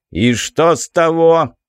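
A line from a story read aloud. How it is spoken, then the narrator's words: Bark. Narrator (Russian): рявкнул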